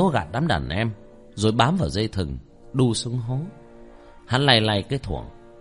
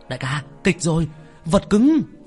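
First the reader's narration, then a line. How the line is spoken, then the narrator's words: Joyful group shout. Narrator (Vietnamese): cả bọn mừng rỡ kêu lên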